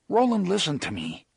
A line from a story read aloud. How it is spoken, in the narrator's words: Eddie said earnestly